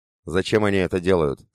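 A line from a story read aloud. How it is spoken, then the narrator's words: Plain. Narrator (Russian): спросил Анатолий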